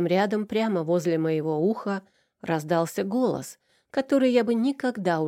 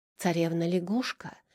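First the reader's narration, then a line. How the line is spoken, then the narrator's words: Whispered. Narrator (Russian): прошептала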